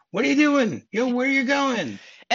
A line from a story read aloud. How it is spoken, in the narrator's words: one of them screaming